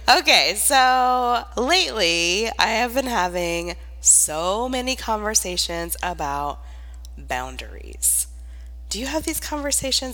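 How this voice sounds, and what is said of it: Congested, stuffy-nosed voice. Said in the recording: “I sound a little congested,”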